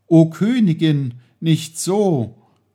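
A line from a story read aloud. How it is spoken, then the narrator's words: Exclaiming. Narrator (German): rief er aus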